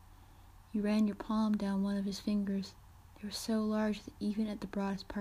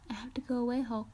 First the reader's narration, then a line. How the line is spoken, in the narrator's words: said